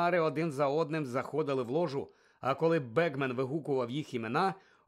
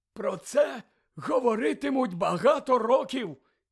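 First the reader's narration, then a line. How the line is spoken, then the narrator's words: Hoarse, cracked voice. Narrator (Ukrainian): зірваним голосом прохрипів він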